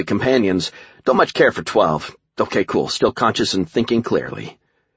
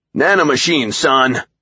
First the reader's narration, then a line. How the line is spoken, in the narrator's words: Colonel Disaster shouted in my face like a drill sergeant